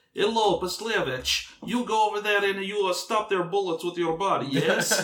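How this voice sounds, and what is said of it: Put-on Russian accent. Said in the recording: “your Russian impression”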